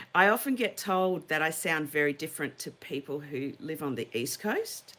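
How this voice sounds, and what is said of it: Australian accent, sounds rather British. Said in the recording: “accent ... It's lovely, but you don't sound very Aussie. You sound more like Brits”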